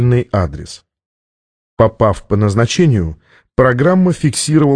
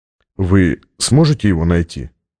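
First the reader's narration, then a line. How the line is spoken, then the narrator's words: Plain. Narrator (Russian): спросил Стратмор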